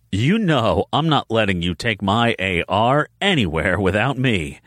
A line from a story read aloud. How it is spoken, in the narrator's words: Ennis said with a laugh